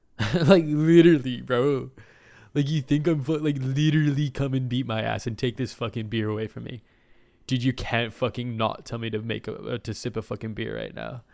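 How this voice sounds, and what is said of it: Frat boy character voice. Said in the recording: “my impersonation of a frat boy with personal issues he refused to acknowledge”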